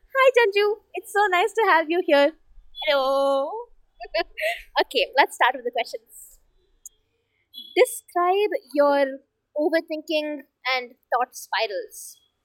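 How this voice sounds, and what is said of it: Naturally high-pitched voice. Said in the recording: “my voice just going like high pitch when I'm talking, but yes, that's just me”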